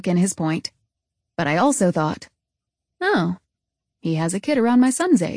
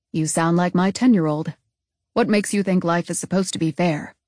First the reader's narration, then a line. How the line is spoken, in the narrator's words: Wendell looked at me and replied, kindly